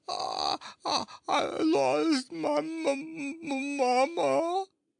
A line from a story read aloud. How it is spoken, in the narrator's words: wailed the baby